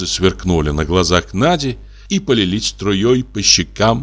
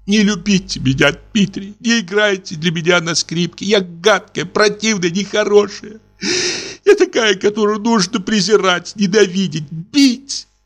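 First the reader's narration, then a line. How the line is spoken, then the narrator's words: Breaking into sobs. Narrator (Russian): Надя зарыдала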